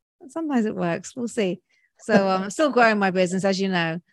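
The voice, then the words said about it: Speaks with a charming accent. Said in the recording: “You have a charming accent”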